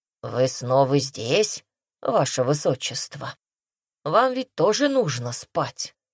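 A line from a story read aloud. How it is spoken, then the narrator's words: Grumbling heard through sleep. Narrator (Russian): Сквозь ее сон прорвалось бурчание Ханума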